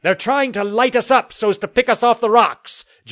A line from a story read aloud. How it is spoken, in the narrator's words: Jameson yelled